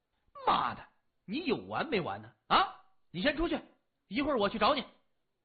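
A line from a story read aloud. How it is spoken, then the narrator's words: Loud. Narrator (Chinese): 大声说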